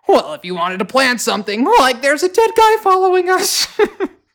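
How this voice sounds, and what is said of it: Cartoon character voice impression. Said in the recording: “really good Shaggy impression”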